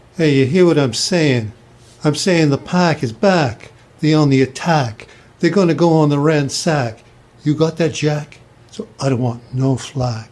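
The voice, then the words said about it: Regional accent with unusual A vowels. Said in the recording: “He says his A's kind of weird. ... It's called an accent”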